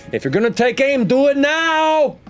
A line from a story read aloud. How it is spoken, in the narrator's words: Xanda shout out from the back